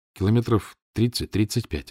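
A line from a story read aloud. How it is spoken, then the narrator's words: Plain. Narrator (Russian): ответил я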